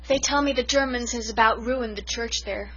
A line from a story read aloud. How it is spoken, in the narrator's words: sighed